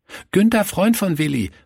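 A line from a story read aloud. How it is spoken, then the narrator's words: Calling out. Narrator (German): rief er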